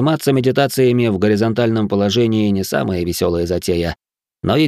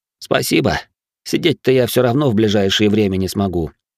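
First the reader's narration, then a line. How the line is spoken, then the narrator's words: Gloomy. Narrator (Russian): мрачно сказал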